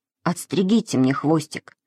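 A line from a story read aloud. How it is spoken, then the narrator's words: Quiet. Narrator (Russian): тихо сказал он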